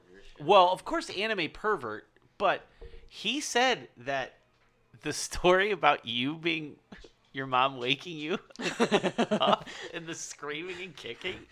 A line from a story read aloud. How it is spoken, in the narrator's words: he laughed hysterically at that